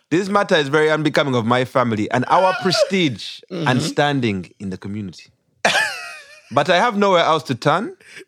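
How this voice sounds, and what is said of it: Put-on Ugandan accent. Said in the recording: “we do it in a Ugandan accent ... It's a Ugandan accent.”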